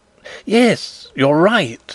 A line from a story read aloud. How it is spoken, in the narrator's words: exclaimed Fritz, his face brightening